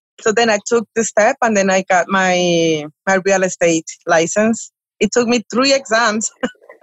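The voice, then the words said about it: Spanish-accented English. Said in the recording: “my accent ... your Sofia Vergara accent”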